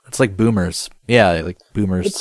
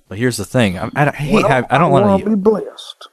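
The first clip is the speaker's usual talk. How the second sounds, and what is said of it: Put-on Southern American accent. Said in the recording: “using a Southern accent, which is kind of what I'm doing”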